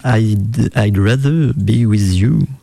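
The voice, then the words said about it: French-accented English pronunciation. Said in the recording (French): “avec mon superbe accent anglais”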